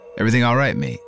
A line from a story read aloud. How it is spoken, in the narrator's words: Chaz asked